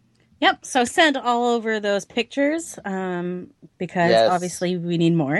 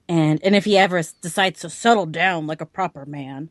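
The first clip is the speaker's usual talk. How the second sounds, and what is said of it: Old man character voice. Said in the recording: “What was that voice? ... That's my old man voice. ... It's really good. ... my Hal Horn voice”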